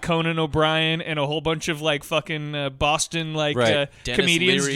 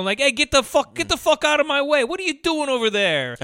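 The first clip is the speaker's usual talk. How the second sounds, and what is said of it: Terrible put-on Boston accent. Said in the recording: “That's my Boston impression. ... terrible.”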